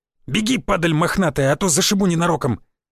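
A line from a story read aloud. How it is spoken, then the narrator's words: Big man barking. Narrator (Russian): Здоровяк рявкнул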